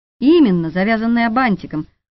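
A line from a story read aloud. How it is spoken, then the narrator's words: Snort. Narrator (Russian): фыркнул Витька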